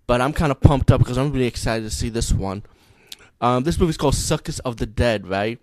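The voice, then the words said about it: Low voice, congested from cold. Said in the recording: “my voice been kind of low lately. You know, I have a cold”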